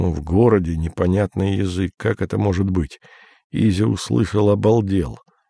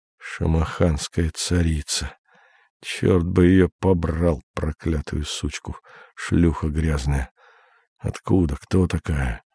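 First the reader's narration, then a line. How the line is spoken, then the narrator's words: Incoherent foreign muttering. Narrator (Russian): Бормочет невразумительные на непонятном языке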